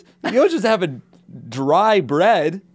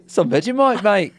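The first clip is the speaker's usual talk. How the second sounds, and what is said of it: Put-on Australian accent. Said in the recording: “What is this accent you're doing? Some Vegemite.”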